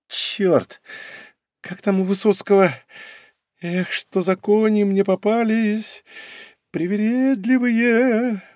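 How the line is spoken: Gloomy singing woman. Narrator (Russian): уныло пропела она

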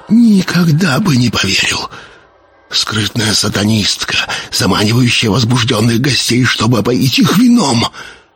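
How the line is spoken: Whisper. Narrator (Russian): прошептал

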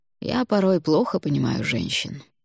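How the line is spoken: Sighing. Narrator (Russian): вздохнул Алвар

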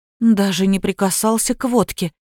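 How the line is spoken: Confused mumbling. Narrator (Russian): растерянно забормотала Кира

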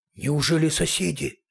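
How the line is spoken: Frightened question. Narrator (Russian): испуганно спросил

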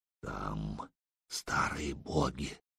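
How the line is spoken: Barely audible rasp. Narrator (Russian): чуть слышно прохрипел Рерих

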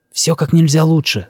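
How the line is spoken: Whisper. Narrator (Russian): зашептал я

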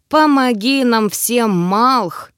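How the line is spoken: Breathed out. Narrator (Russian): выдохнул я

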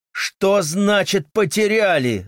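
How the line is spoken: Shouting louder. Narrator (Russian): закричал я еще громче

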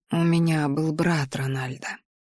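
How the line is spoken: Quiet woman. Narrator (Russian): произнесла женщина негромко

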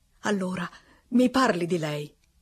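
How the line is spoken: Pleading. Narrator (Italian): supplicò

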